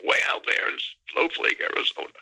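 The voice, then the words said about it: Impression of Stan Friedman. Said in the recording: “my Stan Friedman impersonation”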